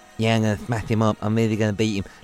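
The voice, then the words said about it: Poor imitation of another person's voice. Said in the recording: “doing a Kell Brook impression, which was appalling”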